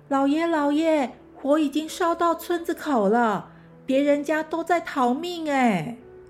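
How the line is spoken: Angry. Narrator (Chinese): 普吉生气地说

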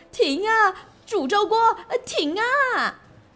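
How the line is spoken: Shouting. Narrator (Chinese): 她大喊

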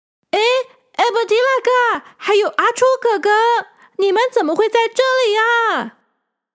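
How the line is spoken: Shouting. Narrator (Chinese): 他大叫着

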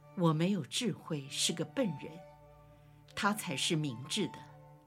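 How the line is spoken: Choked with tears. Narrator (Chinese): 巴尔多禄茂 哽咽地说

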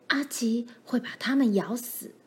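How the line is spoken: Hoarse voice. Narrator (Chinese): 罗兰嘶哑着嗓子说

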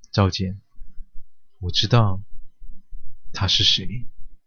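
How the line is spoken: Whispering in ear. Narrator (Chinese): 他附耳轻声地说道

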